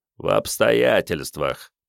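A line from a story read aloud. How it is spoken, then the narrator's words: Grumbling. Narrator (Russian): пробурчал Вано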